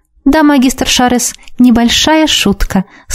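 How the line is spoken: Sweet voice. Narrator (Russian): сладким голосом согласилась с ним

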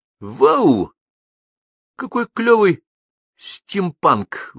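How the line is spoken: Exclamation. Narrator (Russian): воскликнул

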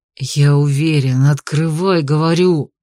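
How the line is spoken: Fearful trembling hiss. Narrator (Russian): прошипел Дебре, которого от страха за девушку уже начало вполне физически потряхивать

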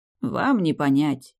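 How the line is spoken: Gloomy sigh. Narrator (Russian): Он вздохнул почти по-человечески, помрачнев

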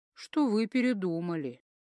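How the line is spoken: Calm, weighty. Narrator (Russian): Спокойно и веско обронил Киару

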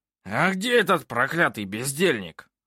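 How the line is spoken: Growl. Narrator (Russian): рыкнул Снивель

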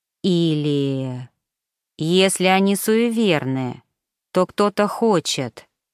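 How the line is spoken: Muffled, talking to himself. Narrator (Russian): глухо произнес он, будто разговаривая сам с собой

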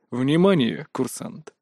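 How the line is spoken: Utterly unruffled tone. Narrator (Russian): самым невозмутимым тоном сообщил Лэн Даорн

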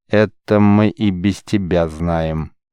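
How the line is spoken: Slow, clipped words. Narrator (Russian): медленно вычеканивая каждое слово, произнес Георг

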